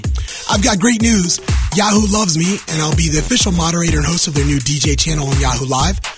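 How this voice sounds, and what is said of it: Wrecked, strained voice. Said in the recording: “as you can hear, my voice is still wrecked”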